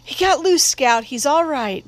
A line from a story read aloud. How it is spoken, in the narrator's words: Jim cried